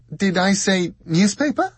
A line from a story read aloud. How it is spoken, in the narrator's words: said Jessica with a tinkling, sweet and self-deprecating laugh